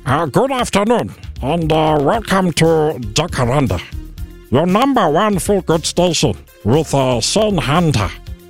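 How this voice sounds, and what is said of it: Imitates another person's voice. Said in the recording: “my best impression that I could possibly give you”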